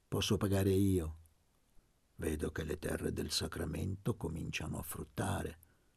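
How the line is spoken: Murmured. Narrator (Italian): mormorò Gesualdo

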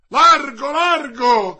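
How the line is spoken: Immediate shout. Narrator (Italian): gridò subito

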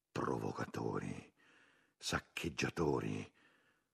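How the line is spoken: Group murmuring. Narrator (Italian): cominciarono a mormorare

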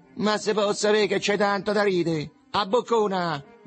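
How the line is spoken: Young man shouting. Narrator (Italian): gridò un giovanotto

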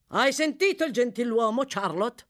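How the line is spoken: Thundered. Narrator (Italian): tuonò

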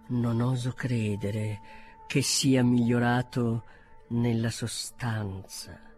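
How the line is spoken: Quieter, more serious tone. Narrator (Italian): soggiunse più piano e in tono più serio

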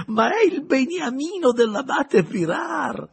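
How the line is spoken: Bishop exclaiming, laughing. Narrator (Italian): esclamò il vescovo ridendo

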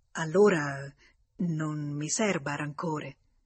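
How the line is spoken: Stammering, at a loss. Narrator (Italian): non trovando le parole adatte, balbettò

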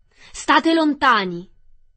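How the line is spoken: Rough voice shouting. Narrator (Italian): una voce rozza gridare

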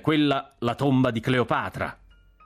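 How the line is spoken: Shouting. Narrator (Italian): il generale Cork mi gridò

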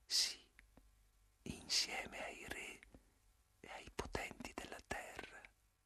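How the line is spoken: Murmur. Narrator (Italian): mormorai

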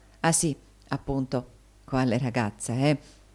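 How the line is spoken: Whispered. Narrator (Italian): bisbigliò Tommaso

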